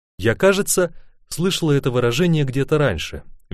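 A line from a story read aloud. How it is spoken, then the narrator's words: Cheerful. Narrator (Russian): весело сказала она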